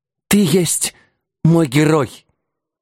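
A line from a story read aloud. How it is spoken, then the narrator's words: Admiring moan, queen mother. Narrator (Russian): восхищенно простонала матушка-царица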